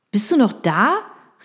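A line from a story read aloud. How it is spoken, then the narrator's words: Calling into phone. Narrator (German): rief Daniel in den Hörer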